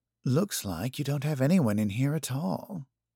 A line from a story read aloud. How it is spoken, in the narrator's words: Feline muttered, looking as uncomfortable